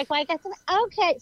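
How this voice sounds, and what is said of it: Imitation of a woman's voice. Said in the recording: “that's not how she talks, but I'm trying to do her voice.”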